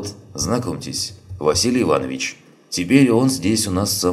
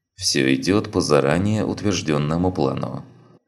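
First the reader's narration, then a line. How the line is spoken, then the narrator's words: Gloomy. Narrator (Russian): мрачно ответил Чапай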